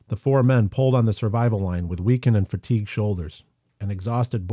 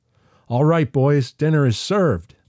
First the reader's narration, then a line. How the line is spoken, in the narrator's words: Boyd yelled and whooped in a hoarse and weakened voice